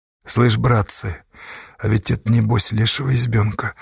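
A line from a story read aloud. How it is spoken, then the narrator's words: Quiet. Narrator (Russian): тихо сказал Иван Верюжин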